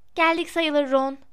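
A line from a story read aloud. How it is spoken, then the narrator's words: Plain. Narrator (Turkish): dedi Hermione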